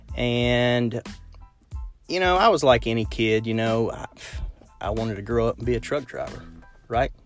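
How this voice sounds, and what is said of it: South central Kentucky accent. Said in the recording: “I grew up in a small town in central Kentucky, kind of south central Kentucky, hence the accent.”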